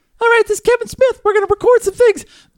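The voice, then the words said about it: Imitates another person's voice. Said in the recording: “It hurts my throat to do his voice... you're killing it with the voiceover”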